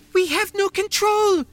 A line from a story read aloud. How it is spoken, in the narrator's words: she shouted